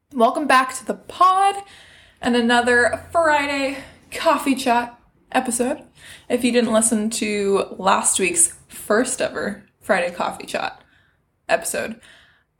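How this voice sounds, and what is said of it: Slightly scratchy voice. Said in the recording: “my voice is a little scratched this morning.”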